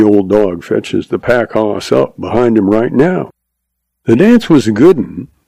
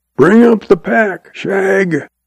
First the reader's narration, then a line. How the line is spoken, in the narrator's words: he hollers